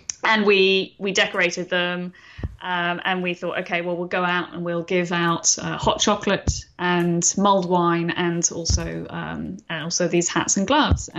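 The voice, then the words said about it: London English accent. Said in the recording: “It was winter in London, which is where I'm from originally, as you can tell from my accent.”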